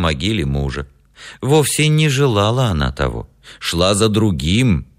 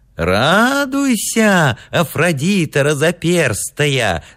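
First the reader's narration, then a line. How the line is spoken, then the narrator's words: Shouting, old childlike voice. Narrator (Russian): закричал он старчески детским голосом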